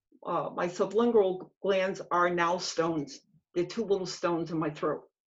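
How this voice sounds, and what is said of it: Dry-mouthed, strained voice. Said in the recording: “My mouth is chronically, chronically dry. ... Just the mere fact of talking, I mean, you can somewhat hear it in my voice. I'm trying to not let you hear that, but I'm struggling.”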